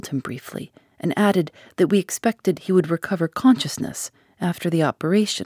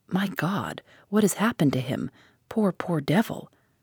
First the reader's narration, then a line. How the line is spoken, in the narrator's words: he said softly